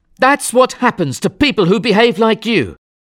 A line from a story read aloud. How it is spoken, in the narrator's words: shouted